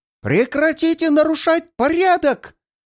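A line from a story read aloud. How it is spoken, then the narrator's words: Yelling. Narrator (Russian): вопит она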